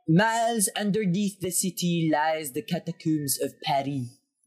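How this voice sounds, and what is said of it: Put-on French accent. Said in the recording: “I should say that with a French accent.”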